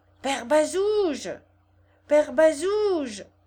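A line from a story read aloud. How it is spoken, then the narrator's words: Raised-voice shout. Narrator (French): cria Gervaise en haussant la voix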